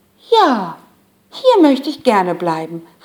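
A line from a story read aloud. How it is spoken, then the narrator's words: Calling out. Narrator (German): rief sie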